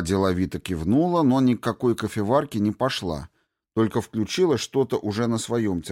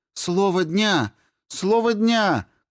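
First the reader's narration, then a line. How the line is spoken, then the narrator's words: Shout. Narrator (Russian): крикнула Айка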